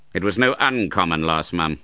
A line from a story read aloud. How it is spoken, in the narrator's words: returned Ralph coolly